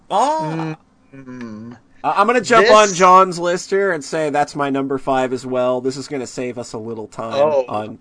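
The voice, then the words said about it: Strained, worn-out voice. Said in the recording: “whatever my voice has left”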